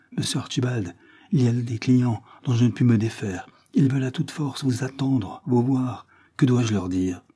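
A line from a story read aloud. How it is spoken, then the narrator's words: Pleading voice. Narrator (French): fit le pauvre Dill d'une voix suppliante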